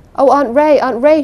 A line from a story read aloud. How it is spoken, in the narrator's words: cried hysterically